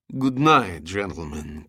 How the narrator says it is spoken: Korsov slurred

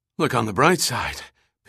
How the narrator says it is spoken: Pitt gasped

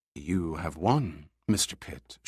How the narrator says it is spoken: she said in a soft voice with just a trace of huskiness

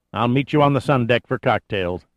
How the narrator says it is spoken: Dillinger said

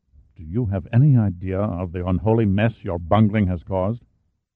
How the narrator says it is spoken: He said in an undertone

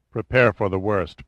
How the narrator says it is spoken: Pitt answered quietly

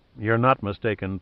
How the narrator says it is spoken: Pitt murmured

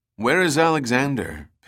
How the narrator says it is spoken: Pitt asked calmly

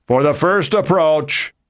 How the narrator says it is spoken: Nixon shouted

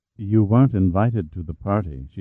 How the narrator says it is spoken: said smoothly

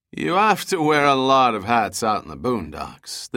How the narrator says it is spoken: the driver laughed

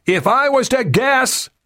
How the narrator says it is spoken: he screamed

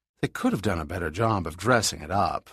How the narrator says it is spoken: said dryly

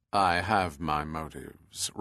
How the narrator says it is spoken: Ruskin answered, his voice cold and toneless

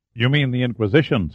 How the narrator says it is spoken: said Sandecker

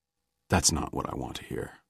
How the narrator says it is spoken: Pitt said softly

